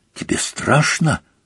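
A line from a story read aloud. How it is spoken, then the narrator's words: Whispered. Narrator (Russian): прошептала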